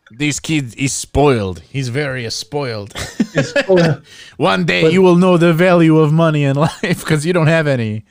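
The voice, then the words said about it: Put-on Russian accent. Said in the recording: “Why does he sound Russian? Why the hell is he sound Russian?”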